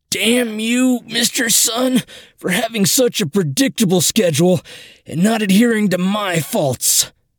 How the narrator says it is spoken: wheezed

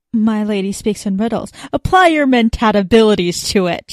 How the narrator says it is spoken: she snapped

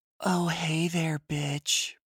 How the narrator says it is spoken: Professor Trevelry said in an emo voice

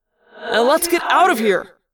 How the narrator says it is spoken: Jake yelled

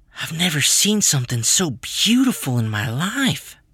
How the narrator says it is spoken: I breathed

